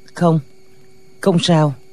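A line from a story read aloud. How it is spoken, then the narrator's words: Trembling pained reply. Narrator (Vietnamese): Lòng lệnh Hồ Xung se lại, run run đáp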